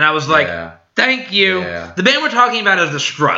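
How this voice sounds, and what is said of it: Usual voice. Nothing is said of it.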